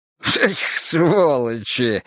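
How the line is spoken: Short laugh. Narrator (Russian): хохотнул Гога

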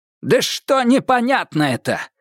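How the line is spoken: Angry question. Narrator (Russian): зло спросил Козулин

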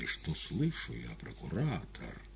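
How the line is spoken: Proud, calm reply. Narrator (Russian): Гордо и спокойно ответил Каифа

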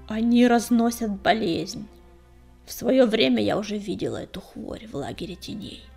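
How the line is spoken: Creaky voice. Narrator (Russian): проскрипела целительница

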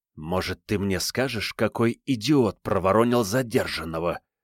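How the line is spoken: Hissed. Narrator (Russian): прошипел

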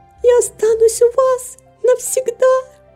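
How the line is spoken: Crying with joy, exclaiming. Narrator (Russian): Герти плача от радости, воскликнула

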